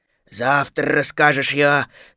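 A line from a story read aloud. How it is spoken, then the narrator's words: Sleepy voice. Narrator (Russian): сказал Пух сонным голосом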